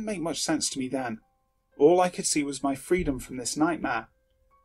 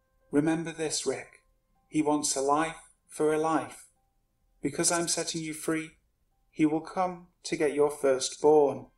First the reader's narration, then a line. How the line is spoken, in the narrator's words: The bride said in a serious tone